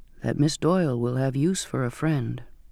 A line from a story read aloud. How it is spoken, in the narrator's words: said softly